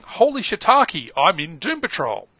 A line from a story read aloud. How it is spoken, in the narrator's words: yelling